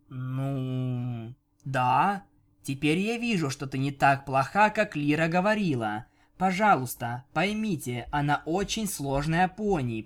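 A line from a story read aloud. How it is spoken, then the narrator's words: Desperate drawl. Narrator (Russian): протянула Бон-Бон, отчаянно пытаясь заставить Винил взглянуть на Лиру по-другому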